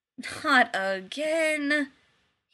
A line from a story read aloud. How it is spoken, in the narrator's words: he groaned